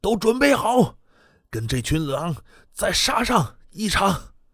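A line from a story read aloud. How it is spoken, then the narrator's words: Roaring. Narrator (Chinese): 王重鹏立即转头咆哮着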